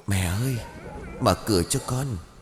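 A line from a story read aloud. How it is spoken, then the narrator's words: Soft call from outside. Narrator (Vietnamese): tiếng gọi khẽ bên ngoài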